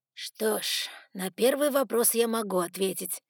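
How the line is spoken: Unexpectedly tired voice. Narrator (Russian): неожиданно усталым голосом произнес приемный отец Сумрака

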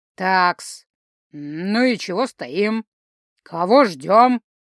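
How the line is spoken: Low hoarse voice from above. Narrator (Russian): Низкий голос с характерной хрипотцой лился откуда-то сверху

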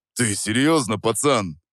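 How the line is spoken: Deep bass. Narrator (Russian): пробасил он

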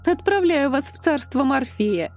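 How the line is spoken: Cheerful. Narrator (Russian): весело откликнулась Настя

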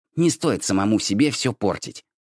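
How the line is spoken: Grumbling. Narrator (Russian): проворчал

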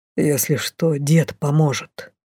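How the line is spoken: Surprisingly quiet, father. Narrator (Russian): на удивление тихо сказал от двери бесшумно приблизившийся отец

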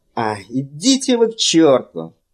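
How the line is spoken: Shout. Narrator (Russian): прокричал Фэллон

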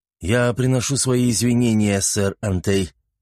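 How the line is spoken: Through gritted teeth. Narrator (Russian): сквозь зубы ответил рыцарь

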